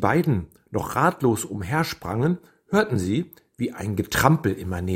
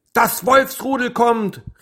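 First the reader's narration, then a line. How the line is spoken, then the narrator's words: Called out. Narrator (German): rief Anna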